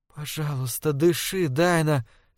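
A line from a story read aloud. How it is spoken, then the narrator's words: Whisper. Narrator (Russian): шепнула Лорел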